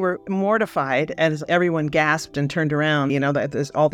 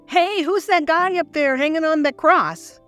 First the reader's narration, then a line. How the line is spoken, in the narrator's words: I said in a very loud voice